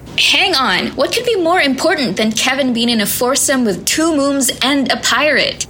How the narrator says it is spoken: Luna sputtered, shocked by the priority of society these days

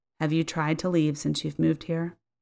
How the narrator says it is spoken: responded quietly

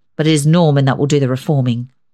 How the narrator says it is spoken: said grimly

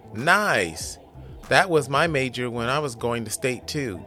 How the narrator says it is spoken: Jonathan says before chuckling

